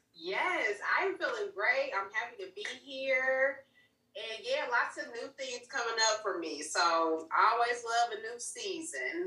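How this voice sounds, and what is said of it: Southern-sounding American accent. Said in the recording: “us Northerners do got a little accent, huh? ... I thought you was from down south”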